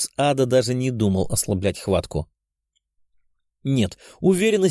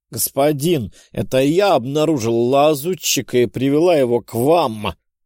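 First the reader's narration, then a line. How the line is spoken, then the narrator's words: Strained, forced words. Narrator (Russian): Натужно выдавила из себя слова демонесса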